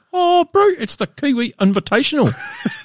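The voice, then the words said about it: Exaggerated put-on New Zealand accent. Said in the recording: “you do a great Kiwi accent ... over the top”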